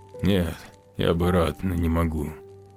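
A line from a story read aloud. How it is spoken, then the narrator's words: Hoarse reply. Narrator (Russian): он хрипло ответил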